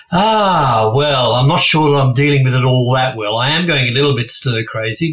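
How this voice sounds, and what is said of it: Lovely English accent. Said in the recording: “was born in England, which you'll hear from his lovely accent”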